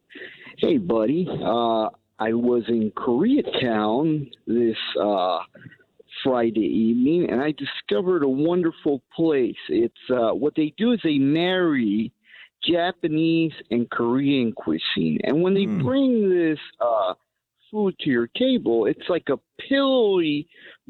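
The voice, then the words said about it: Imitates another person's voice. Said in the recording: “Can I do a really quick Neil Saavedra impression? ... you want to do an impression of him”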